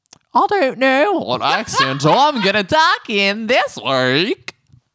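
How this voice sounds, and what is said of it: Imitates another person's accented voice. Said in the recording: “Give me a Dorit ... That was good ... Accurate. Yes, very good ... faking accents”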